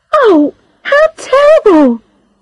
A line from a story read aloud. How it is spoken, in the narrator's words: cried Charlotte